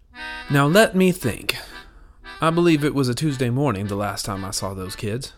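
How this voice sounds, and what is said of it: Old Southern lady voice. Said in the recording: “best old Southern lady impression.”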